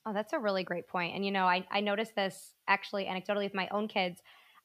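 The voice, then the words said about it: Slightly hoarse, strained voice. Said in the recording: “losing my voice a little bit right now”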